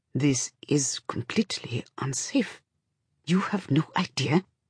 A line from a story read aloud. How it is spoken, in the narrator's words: Cutter stands over her and says in a tight voice